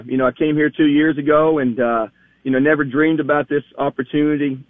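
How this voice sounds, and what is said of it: Slight Southern US accent. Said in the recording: “you got a little accent there. You're a Southern guy.”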